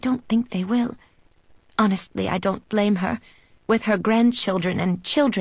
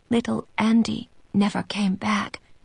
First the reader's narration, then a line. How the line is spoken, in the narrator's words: she whispers